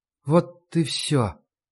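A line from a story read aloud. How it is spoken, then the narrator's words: Near whisper. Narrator (Russian): почти прошептала она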